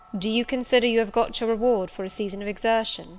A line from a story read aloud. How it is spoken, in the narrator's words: asked Mr